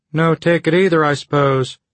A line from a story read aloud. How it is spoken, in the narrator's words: he said in a strange, distant voice